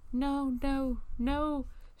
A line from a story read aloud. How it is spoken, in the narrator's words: she moaned from beneath the gag